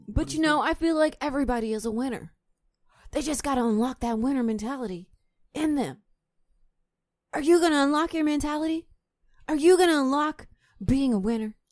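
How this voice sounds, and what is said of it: Imitates another person's voice. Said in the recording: “my impersonation ... sound like some whack ass shit The Rock would say”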